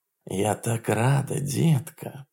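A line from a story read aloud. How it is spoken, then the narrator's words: Purring. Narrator (Russian): промурлыкала она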